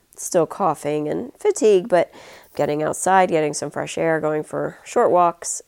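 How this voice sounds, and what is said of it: Congested, stuffy voice. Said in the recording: “my head is very stuffy. If you can tell, my voice is a little different... my sinuses are making very interesting noises”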